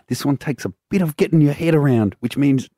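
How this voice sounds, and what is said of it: Put-on accent, hard to follow. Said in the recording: “I'm finding the accent hard to... My voice is going and I'm struggling with it a bit myself.”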